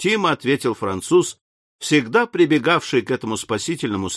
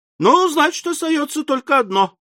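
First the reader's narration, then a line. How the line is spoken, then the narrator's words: Decisive exclamation. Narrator (Russian): решительно воскликнул Мишель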